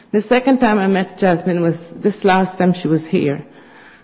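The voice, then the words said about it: Nervous, emotional voice. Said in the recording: “I'm a bit nervous because I'm a bit emotional now.”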